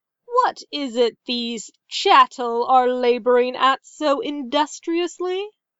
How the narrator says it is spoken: he laughed

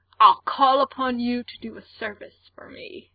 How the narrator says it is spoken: slurs

